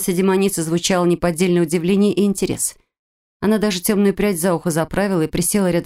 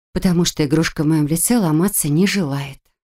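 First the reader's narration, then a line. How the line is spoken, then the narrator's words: Breathless exhale. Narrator (Russian): выдохнула я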